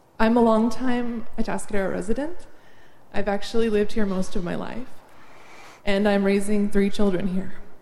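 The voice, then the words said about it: Slightly shaky, nervous voice. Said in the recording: “my voice is a little shaky”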